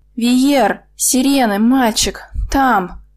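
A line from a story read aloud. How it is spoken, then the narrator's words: Hoarse rasp. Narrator (Russian): прохрипела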